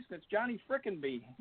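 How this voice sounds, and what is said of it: Put-on East Coast accent. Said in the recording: “you go back east ... with the accent”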